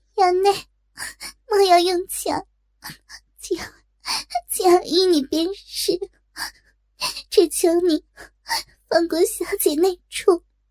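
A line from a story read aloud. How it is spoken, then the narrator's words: Crying. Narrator (Chinese): 哭道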